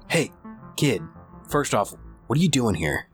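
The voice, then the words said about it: Whispering. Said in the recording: “we're whispering”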